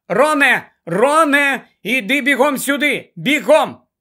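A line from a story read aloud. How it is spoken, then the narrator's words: Shout. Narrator (Ukrainian): Вона крикнула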